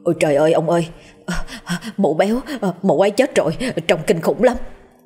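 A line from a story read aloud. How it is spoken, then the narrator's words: Terrified trembling voice. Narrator (Vietnamese): thằng Karan vẻ mặt trắng nhợt, cắt không còn giọt máu, giọng run rẩy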